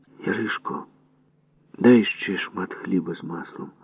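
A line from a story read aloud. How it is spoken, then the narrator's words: Quiet voice. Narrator (Ukrainian): сказав я тихим голосом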